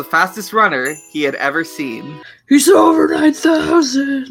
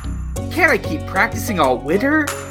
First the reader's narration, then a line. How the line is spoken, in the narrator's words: He pleaded